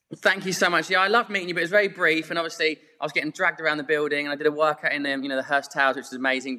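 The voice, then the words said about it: English accent from Surrey, UK. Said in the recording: “we can all hear that amazing accent ... growing up in Epsom, Surrey”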